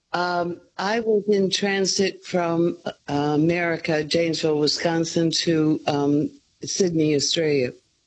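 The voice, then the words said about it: North American accent. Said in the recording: “I detect a North American accent”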